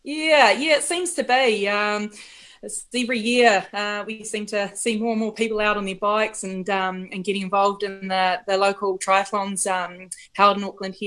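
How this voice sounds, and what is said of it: New Zealand accent. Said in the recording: “That is a very Kiwi accent.”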